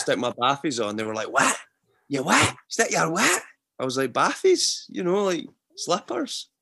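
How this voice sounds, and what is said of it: Scottish Fife accent. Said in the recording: “people from Edinburgh that are slating a Fife accent ... They're in the same boat as us ... I don't think the Fife accent is that bad”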